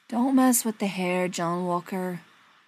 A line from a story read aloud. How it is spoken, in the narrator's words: Brendan said sadly